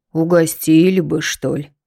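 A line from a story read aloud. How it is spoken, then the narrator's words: Sighing old man. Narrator (Russian): Дедок вздохнул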